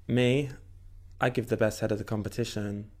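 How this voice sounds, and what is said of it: Flat monotone imitation of another's voice. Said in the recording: “let me try and get it at that monotone ... You did it definitely better. You misquoted, but you got the tone just right.”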